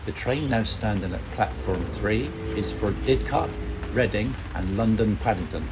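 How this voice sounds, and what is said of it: Swindon train announcer impression. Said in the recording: “what's the Swindon accent? And I did the train announcer from Swindon platform ... it's kind of west, but not so west ... it hasn't got the full Lake Twang”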